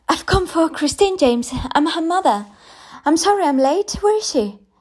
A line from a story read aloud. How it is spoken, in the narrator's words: gasped